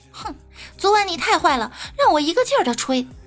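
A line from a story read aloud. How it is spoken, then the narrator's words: Playfully annoyed. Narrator (Chinese): 女同事嗔怒地对他说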